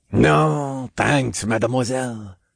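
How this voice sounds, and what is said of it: Thick French accent. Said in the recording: “said through a thick French accent”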